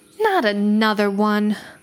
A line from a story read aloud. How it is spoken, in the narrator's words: a voice sighed irritably